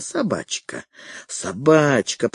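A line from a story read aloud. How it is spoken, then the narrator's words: Wheezed. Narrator (Russian): просипел Фредерик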